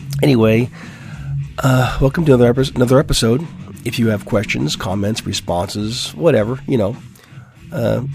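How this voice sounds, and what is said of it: Raspy voice. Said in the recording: “my voice is a little bit raspy. I was a little bit ill this week, and it's taken some time to um, to bring my voice back. So I sound raspy. ... I know I sound bad.”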